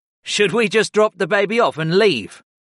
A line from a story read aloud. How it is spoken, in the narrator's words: Geheim Maddox asked with a hearty chuckle